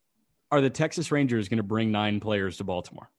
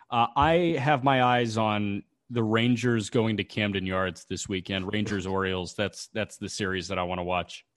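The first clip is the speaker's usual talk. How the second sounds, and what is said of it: Deadpan delivery. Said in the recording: “Was that deadpan enough?”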